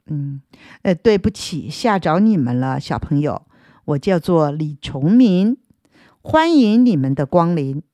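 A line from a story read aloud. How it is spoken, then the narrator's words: Smiling. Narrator (Chinese): 对我们一笑，然后说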